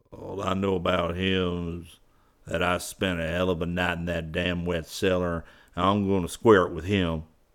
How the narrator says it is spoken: grumbled Lombard

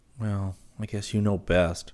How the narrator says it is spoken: Rick said gloomily

